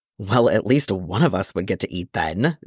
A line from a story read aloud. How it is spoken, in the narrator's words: Danny grumbled